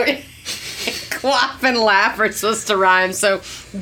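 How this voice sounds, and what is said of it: Usual voice. Nothing is said of it.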